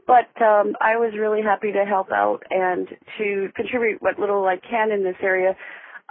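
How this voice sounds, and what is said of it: Voice sounds like a cold. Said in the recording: “Pardon my voice has a little bit of a cold in it.”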